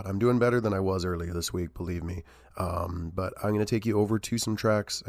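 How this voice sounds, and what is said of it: Unwell-sounding voice. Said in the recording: “you can probably hear in my voice, I'm not doing super hot”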